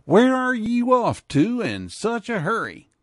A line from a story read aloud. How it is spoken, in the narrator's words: A friend of the rider's called out